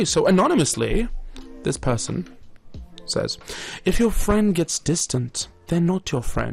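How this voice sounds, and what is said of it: Usual voice. Nothing is said of it.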